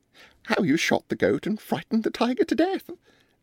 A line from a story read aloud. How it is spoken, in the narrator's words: said Miss Mebbin, with her disagreeably pleasant laugh